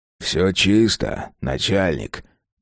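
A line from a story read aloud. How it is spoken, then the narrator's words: Quiet. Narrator (Russian): тихо сказал человек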